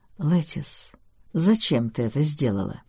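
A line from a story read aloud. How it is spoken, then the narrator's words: Gentle question. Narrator (Russian): мягко спросил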